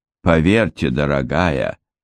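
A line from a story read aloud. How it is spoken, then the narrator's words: Sighing. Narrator (Russian): вздохнула миссис Рассел Кук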